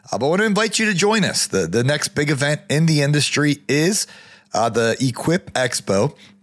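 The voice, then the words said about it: Worn-out, strained voice. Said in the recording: “my voice is Wayne in here from all this traveling and all this podcasting”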